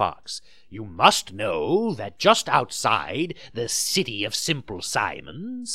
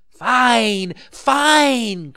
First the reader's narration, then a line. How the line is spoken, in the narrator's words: cried Pinocchio, dancing about with joy